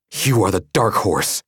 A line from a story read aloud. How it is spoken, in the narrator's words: the boy hissed